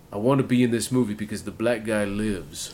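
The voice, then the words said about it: Ving Rhames impression. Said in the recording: “That was my Ving Rhames impression. ... That's your Ving Rhames impression. It was pretty good.”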